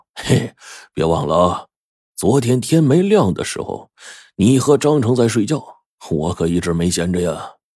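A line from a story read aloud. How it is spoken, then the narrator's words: Old man laughing. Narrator (Chinese): 老爷子就笑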